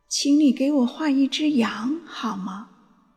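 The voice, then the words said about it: Small strange voice. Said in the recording (Chinese): “一个奇怪的小声音叫醒我...这小小的声音说道”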